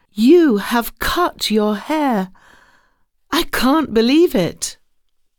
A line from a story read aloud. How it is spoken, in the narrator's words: Jim cried out